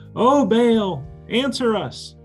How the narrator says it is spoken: these prophets are yelling

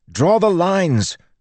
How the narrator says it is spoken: Joel yelled

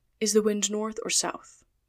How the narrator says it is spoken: asked Mr

